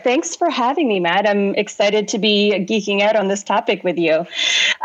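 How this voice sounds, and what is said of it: Canadian accent, not British. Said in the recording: “hopefully you can all tell by my accent, I'm not actually British ... born and raised originally in Canada, grew up in Toronto”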